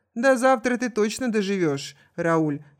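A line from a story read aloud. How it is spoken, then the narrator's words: Laughing. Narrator (Russian): рассмеялась Мария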